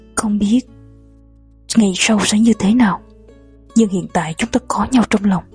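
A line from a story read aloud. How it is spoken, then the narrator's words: Murmuring. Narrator (Vietnamese): hoàng hậu vừa lẩm bẩm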